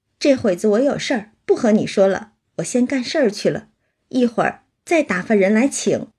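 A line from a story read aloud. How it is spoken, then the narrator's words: Laughing. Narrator (Chinese): 平儿只笑说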